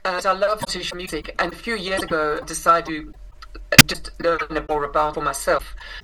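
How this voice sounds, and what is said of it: South African accent. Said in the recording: “I grew up in South Africa, which is where I inherited this accent.”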